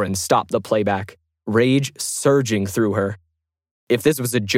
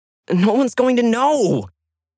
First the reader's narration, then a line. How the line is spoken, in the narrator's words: shouted in frustration